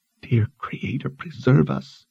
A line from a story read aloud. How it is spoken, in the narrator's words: she whispered in prayer